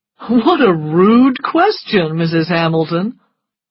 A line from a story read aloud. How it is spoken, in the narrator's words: he laughed